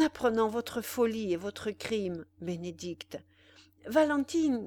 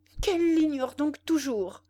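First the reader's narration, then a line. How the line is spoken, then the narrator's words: Exclaimed. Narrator (French): s'écria Bénédicte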